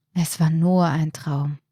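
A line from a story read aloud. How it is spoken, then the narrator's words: Relieved sigh. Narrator (German): seufzte Martin erleichtert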